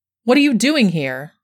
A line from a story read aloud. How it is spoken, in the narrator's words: cried